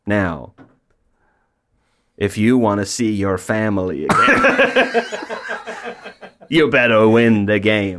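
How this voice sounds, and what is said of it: Put-on menacing accent. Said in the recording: “Your accent has changed incredibly.”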